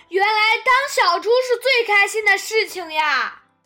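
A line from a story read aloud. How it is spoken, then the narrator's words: Happy loud shout. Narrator (Chinese): 小猪高兴地大叫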